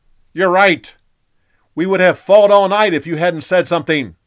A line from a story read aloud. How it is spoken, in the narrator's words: Joab yelled back